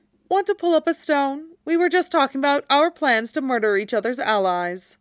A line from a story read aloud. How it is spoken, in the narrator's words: Draco said lazily